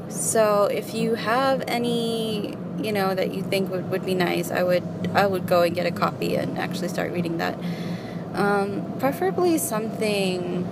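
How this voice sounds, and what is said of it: American accent. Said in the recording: “It's got kind of an American accent,”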